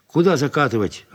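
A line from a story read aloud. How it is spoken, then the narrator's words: Snapping. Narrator (Russian): огрызнулась тетя Фрося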